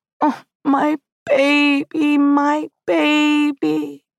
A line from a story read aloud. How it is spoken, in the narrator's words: my mother pulled me into her lap, wailing, and cried